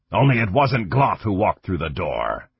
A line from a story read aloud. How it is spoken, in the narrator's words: Kang growled